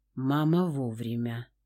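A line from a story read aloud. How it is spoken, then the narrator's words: Hoarse voice. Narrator (Russian): хрипло произнес Нир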